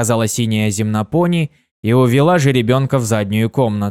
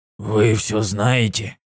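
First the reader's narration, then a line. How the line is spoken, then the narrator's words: Whisper. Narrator (Russian): прошептал Фаций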